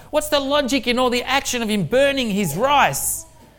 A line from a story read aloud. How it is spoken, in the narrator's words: the old man shouted back at the top of his voice